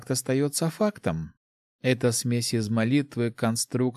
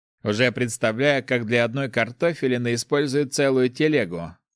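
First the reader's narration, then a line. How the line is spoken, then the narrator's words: Chuckling. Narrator (Russian): хохотнул Кельт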